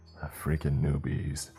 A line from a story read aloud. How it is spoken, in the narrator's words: muttered